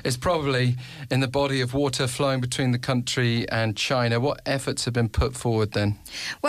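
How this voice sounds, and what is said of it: British accent. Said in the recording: “I have to do it with my British accent”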